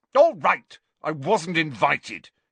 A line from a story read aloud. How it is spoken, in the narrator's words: he said angrily